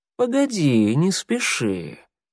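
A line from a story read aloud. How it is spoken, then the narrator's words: Tender purr. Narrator (Russian): промурлыкала нежным голосом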